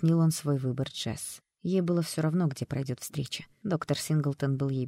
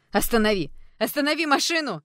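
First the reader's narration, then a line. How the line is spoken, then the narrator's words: Hysterical scream. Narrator (Russian): Закричала Джесс в истерике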